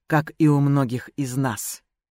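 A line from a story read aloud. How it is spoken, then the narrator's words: Quiet. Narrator (Russian): Лэй тихо добавил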